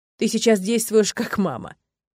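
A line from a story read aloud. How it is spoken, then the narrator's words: Struggling through laughter. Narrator (Russian): сквозь смех с трудом проговорил я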